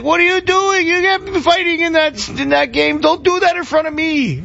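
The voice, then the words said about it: Put-on old Italian man accent. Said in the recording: “Like the old Italian grandpa. So accent.”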